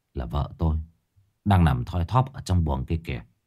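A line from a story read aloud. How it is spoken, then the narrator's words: Sighing. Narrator (Vietnamese): Anh Thiên thở dài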